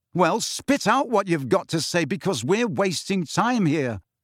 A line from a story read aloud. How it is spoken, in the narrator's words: Harry shouted